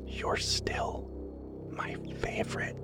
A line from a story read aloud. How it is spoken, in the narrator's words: whispered in her ear